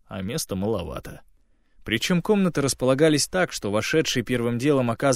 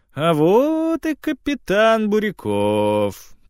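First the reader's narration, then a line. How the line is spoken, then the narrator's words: Drawling, feigned tenderness. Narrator (Russian): протянул майор, улыбаясь притворно ласково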